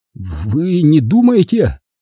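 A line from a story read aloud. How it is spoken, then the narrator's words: Forced out, strained. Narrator (Russian): выдавил он из себя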